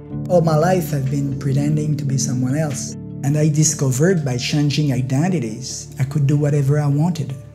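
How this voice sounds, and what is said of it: French accent in English. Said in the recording (Dutch): “je hoort echt heel duidelijk dat Frans accent”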